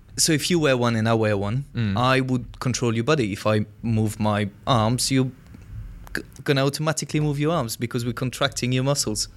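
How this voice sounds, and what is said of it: French accent. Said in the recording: “That's just the French accent.”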